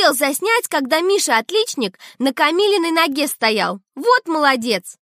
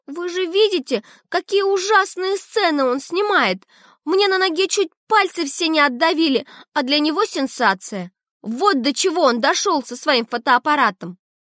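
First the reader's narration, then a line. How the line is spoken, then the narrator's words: Speaking through tears. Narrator (Russian): Камила говорит сквозь слезы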